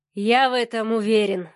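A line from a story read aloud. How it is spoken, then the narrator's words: Sighing man. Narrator (Russian): вздохнул Савелий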